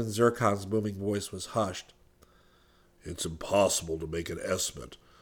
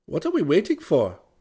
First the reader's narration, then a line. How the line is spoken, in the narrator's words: Chada asked eagerly